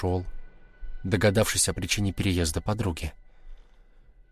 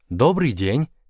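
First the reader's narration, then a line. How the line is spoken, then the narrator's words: Cheerful woman. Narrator (Russian): весело сказала незнакомая женщина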